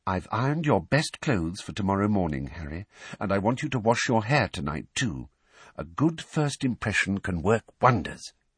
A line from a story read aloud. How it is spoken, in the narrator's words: Weasley said quietly